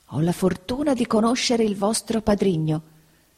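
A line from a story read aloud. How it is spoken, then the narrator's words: Whispered. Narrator (Italian): bisbigliò il signor Creakle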